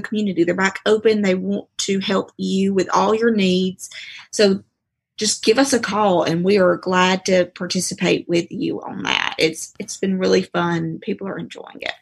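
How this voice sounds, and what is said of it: Southern US Georgia accent. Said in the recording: “that was a Rome, Georgia accent”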